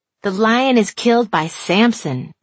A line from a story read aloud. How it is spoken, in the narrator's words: she said